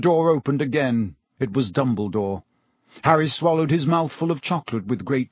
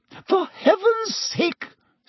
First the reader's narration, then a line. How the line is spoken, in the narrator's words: said Madame Pomfrey hysterically